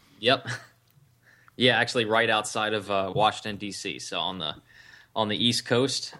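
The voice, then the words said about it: American East Coast accent. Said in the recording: “born and raised in obviously America. I can hear the accent.”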